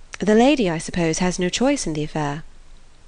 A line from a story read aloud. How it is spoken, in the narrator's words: Eleanor, smiling calmly replied